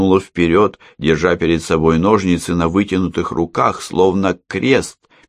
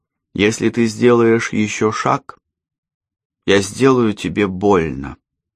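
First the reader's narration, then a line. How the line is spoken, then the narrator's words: Calm. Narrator (Russian): спокойно сказала Алла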